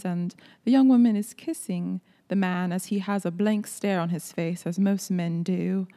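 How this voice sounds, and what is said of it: Put-on British accent. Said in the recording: “You're doing the British accent.”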